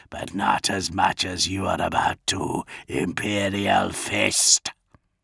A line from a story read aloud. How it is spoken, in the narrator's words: rasped a death-rattle voice